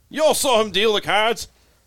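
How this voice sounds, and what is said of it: Badly done put-on accent. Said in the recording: “terrible accent”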